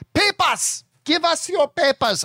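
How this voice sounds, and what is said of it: Poor put-on German accent. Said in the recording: “I can't do a German Nazi imitation... That was just terrible, terrible impersonation”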